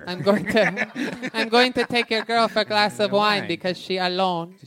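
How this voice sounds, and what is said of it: Put-on Mexican accent. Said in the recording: “That is a racist accent. ... that's a racist accent, dude. That sounds like a Mexican guy.”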